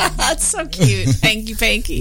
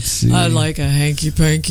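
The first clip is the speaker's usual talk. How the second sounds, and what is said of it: Put-on deep voice. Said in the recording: “deep voice”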